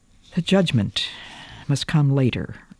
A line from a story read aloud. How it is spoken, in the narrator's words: he said wearily